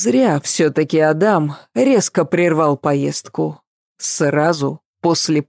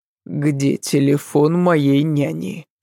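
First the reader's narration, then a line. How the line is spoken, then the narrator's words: Gloomy question. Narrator (Russian): спросил он мрачно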